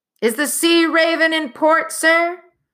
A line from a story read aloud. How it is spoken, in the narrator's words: he shouted down